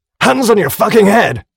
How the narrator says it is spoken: screamed the soldier again

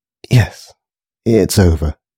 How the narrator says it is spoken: sighed Grace

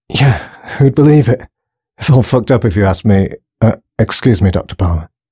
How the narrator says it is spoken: stuttered the guard

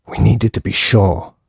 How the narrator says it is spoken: hissed the man angrily

